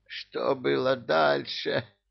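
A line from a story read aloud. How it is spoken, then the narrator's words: Hoarse wheeze. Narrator (Russian): просипел министр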